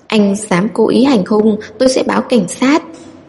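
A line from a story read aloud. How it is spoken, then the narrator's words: Frightened mumbling. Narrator (Vietnamese): Lâm Di An rụt lui sau theo bản năng, lúng búng nói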